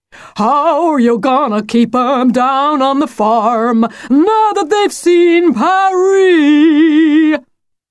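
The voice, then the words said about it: Sung in broad American accent. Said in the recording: “he sang with a broad American accent”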